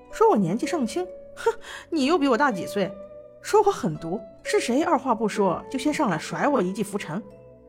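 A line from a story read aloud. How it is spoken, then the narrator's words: Hearty laughter. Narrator (Chinese): 薛洋便哈哈笑道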